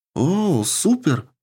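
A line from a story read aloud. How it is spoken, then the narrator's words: Joyful exclamation. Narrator (Russian): радостно воскликнула Рика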